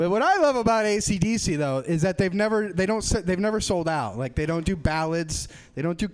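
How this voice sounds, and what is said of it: Usual voice. Nothing is said of it.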